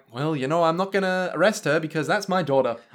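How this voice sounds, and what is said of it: Put-on Minnesotan accent. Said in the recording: “you were doing a sort of Minnesotan accent for a second there. It's sort of very Fargo.”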